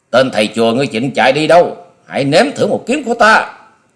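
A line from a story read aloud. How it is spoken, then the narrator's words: Roaring like hungry tiger. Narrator (Vietnamese): Long Điểu Kiếm Khách gầm như một con cọp đói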